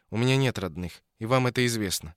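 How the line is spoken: Weary reply. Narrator (Russian): устало ответила Ося

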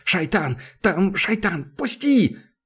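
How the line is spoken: Hoarse wheeze. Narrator (Russian): Сглотнул и просипел

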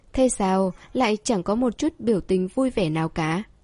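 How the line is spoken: Soft laugh. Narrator (Vietnamese): Khuất Lâm Uyển khẽ cười nói

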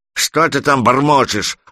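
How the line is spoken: Bearded man's growl. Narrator (Russian): рыкнул бородач

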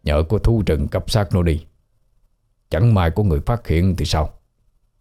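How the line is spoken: Uneasy muttering. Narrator (Vietnamese): bất an mà lẩm bẩm nói

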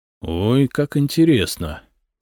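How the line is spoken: Thoughtful drawl. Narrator (Russian): задумчиво протянул Самослав

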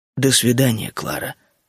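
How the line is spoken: Calm. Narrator (Russian): сказал спокойно

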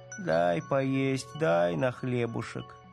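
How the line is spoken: Hoarse, rough child's drone. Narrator (Russian): девочка затянула хриплым, грубоватым голосом

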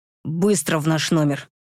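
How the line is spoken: Growled. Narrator (Russian): рыкнул

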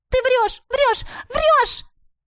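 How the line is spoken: Shouting. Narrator (Russian): закричала я

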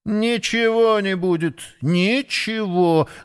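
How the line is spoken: Angry hiss. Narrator (Russian): злобно зашипел воробей

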